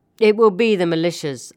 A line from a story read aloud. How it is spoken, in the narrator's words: answered Captain Wissam with his hoarse, sarcastic laugh